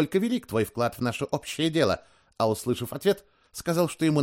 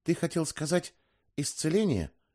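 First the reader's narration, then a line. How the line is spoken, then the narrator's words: Quiet mumble. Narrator (Russian): негромко пробормотала Доркас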